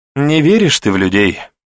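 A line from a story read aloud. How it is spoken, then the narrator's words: Gloomy. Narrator (Russian): мрачно произнесла Марфа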